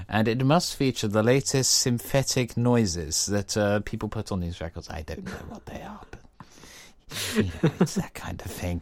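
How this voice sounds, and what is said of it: Posh 1960s English executive voice. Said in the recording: “being quite a butch man, as you can tell by this voice that I'm imitating ... your like archetypal record executive guy is just like the classic 60s, you know, proper English guy”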